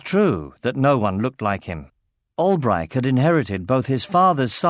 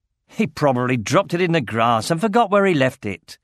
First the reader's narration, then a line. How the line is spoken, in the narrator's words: snorted Albrecht